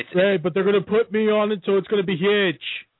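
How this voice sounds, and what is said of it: Donald Trump impression. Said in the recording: “you got to love ... impersonation of the Trump”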